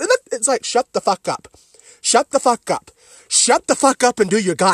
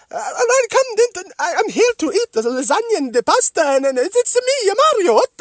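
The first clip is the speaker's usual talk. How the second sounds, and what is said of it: Exaggerated high-pitched stereotypical Italian accent. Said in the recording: “Stereotypical Italian bullshit. Like, doing the high-pitched... ... stereotypical, shitty-ass, garbage Italian accent”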